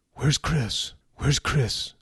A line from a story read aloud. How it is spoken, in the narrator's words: she asked urgently